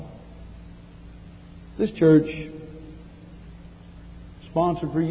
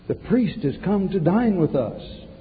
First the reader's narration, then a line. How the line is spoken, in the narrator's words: the husband loudly cried